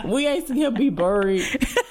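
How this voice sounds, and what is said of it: Poorly attempted Oakland accent. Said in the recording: “I'm sorry, I can't do an Oakland accent... bad.”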